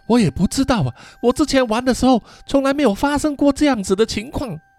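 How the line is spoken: Breathless. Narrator (Chinese): 卡玛拉也是喘着大气 说

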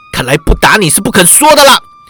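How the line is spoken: Furious shout. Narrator (Chinese): 忍不住怒火攻心，喝道

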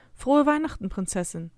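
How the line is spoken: Mother's gentle voice. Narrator (German): sagt meine Mutter mit sanfter Stimme

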